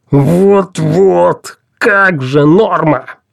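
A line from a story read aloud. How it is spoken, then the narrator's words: Growl. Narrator (Russian): прорычал Пелхим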